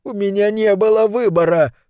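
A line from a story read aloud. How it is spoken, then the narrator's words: Whining. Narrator (Russian): скулит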